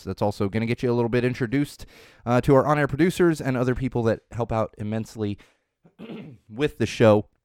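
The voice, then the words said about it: Hoarse, fading voice. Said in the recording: “I am starting to lose my voice”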